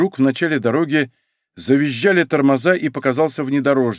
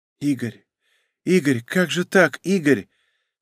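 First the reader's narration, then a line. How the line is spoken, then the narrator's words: Weak mumble, mother. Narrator (Russian): слабым голосом бормотала мать Ларисы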